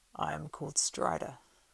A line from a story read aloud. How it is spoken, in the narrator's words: said in a low voice